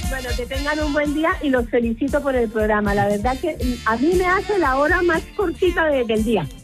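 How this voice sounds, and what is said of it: Strong regional Spanish accent. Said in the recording (Spanish): “tengo un acento muy, muy característico de mi tierra”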